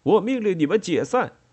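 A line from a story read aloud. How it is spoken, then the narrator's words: Shouting. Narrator (Chinese): 他叫嚷着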